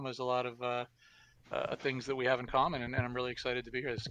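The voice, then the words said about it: Canadian accent. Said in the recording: “part of our Canadian contingent up there in the Great White North. ... I noticed the oot rather than the out.”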